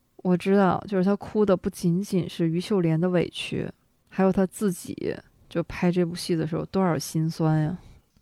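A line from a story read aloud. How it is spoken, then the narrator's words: Crying. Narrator (Chinese): 他哭的时候，他就说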